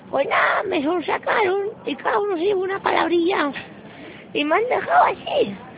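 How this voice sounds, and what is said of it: Squeaky high-pitched character voice. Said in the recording (Spanish): “voz de pito”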